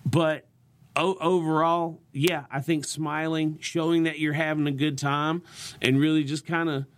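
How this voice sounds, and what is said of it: Southern American accent, lively inflection. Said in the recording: “turn up the Southern ... my accent's a little thicker when I'm on stage ... Your inflection is higher.”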